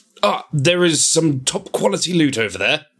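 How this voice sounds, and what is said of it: English-accented AI butler character voice. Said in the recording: “Just in an English accent ... Can you give me your best Jarvis? ... That was Iron Man 2-esque.”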